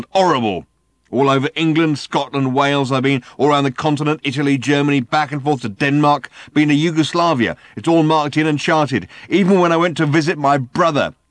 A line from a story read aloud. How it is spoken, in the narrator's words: snarled